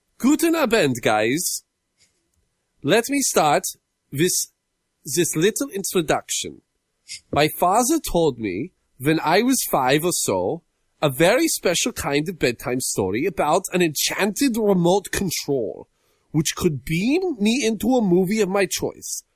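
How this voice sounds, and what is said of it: Put-on German accent. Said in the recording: “I am going to read it with a German accent.”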